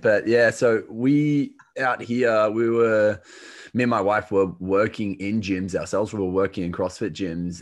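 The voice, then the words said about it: Australian accent. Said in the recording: “I'm an Australian, if you can't tell from the accent”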